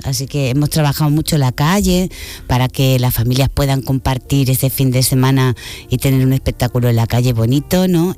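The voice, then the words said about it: Spanish speaker with Argentine-sounding accent. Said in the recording (Spanish): “El acento suena muy argentino”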